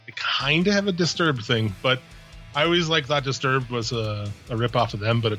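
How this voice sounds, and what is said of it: Hoarse, failing voice. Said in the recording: “I can hardly even fucking talk. My voice is quitting.”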